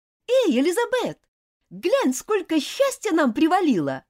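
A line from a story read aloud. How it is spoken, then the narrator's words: Cheerful. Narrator (Russian): весело сказала Дженни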